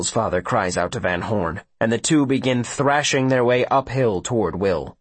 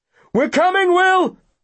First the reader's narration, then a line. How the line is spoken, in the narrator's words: his father shouts behind him